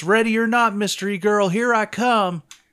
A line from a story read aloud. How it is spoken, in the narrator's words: Sergeant Anders yells